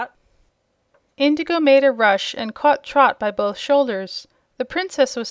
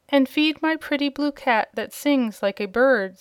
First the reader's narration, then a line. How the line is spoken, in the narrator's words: said Princess Azure